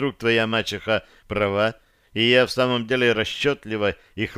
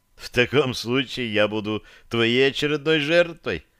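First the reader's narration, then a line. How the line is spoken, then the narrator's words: Laughing. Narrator (Russian): рассмеялся Дирон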